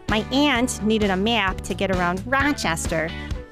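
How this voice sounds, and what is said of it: Rochester Inland North accent. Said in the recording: “That's what we call the Rochester accent. But it's officially called the Inland North or Great Lakes dialect.”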